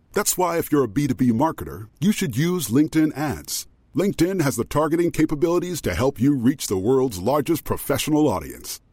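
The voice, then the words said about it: Very deep announcer voice. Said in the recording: “As a person with a very deep voice, I'm hired all the time for advertising campaigns”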